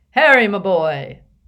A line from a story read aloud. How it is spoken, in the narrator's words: said a booming voice from behind them